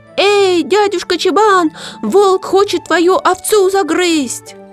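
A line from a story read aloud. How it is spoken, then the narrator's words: Sudden shout from wolf's mouth. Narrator (Russian): Нахудак как закричит из волчьей пасти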